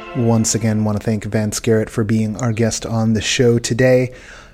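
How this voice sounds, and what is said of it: Tired, low-energy voice. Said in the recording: “I'm a little burned out right now... You can hear it in my voice... my batteries, they are drained at the moment... I'm not at the top of my game”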